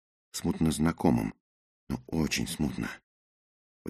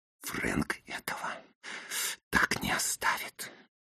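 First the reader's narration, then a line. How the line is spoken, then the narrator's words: Hissed through teeth. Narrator (Russian): прошипел я сквозь зубы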